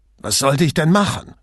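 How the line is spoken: Indignant shout. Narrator (German): rief Sartor entrüstet

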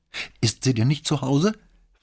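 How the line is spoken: Fearful woman's question. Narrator (German): fragte die Frau zurück und klang schon wieder ganz ängstlich

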